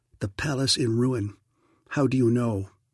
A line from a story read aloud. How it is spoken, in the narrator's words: In a tight, low voice, he said